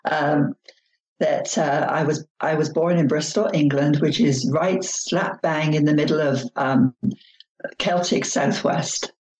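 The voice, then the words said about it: English accent. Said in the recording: “I was raised in England. You can tell from the accent.”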